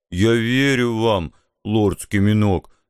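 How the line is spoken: Muffled, tearful. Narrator (Russian): глухо ответил мой зареванный друг

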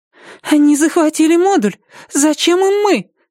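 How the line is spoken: Thin nervous voice. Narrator (Russian): спросила Амена тонким нервным голосом

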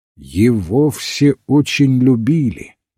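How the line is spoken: Solemn. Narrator (Russian): торжественно ответствовал доктор

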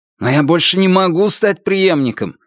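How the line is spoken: Irritated. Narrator (Russian): сказал Звон, уже не столь подавленно, а скорее раздраженно

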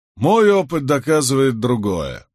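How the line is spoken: Grumbling. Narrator (Russian): проворчал Уильямс

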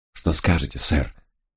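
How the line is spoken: Quiet question. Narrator (Russian): тихо спросил я

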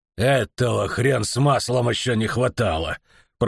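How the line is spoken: Grumbling. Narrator (Russian): проворчал Филин

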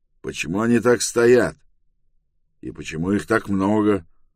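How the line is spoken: Angry question. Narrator (Russian): он сердито спросил

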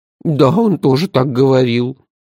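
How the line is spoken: Sad agreement. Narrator (Russian): печально согласилась Базилио

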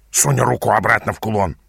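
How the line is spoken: Hissing. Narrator (Russian): прошипел Ас

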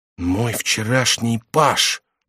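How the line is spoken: Whispered. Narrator (Russian): прошептал он

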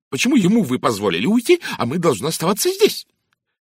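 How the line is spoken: Indignant woman exclaiming. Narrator (Russian): с негодованием воскликнула Сайсли Хорбери

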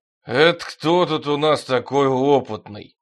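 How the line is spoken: Booming. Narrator (Russian): прогудел боцман

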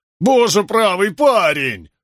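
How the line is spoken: Howled in dismay. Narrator (Russian): взвыл Дженнингс при виде зря проливаемой выпивки

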